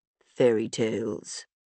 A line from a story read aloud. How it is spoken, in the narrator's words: Rami muttered